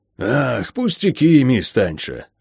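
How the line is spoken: Sighing. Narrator (Russian): вздохнул хозяин дома

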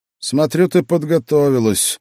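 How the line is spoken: Snorted without malice. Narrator (Russian): без всякой злобы или раздражения хмыкнул Павел

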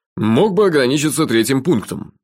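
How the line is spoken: Wry snort. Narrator (Russian): хмыкнул шеф

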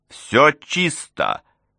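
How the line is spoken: Shout, oddly strained voice. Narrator (Russian): крикнул Дункан, но голос его звучал несколько необычно

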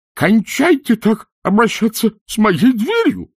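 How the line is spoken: Shrill squeal from under table. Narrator (Russian): взвизгнул из-под стола Пузан

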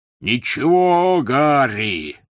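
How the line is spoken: Roaring. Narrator (Russian): взревел Хагрид

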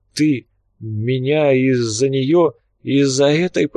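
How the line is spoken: Hoarse wheeze. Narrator (Russian): прохрипел родственник

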